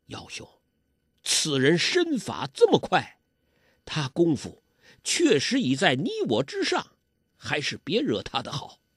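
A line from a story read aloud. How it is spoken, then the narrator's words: Low whisper in ear. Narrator (Chinese): 在黄药师耳边低声说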